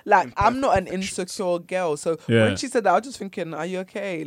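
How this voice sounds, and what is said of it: Deep female voice. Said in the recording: “my voice is a bit deep”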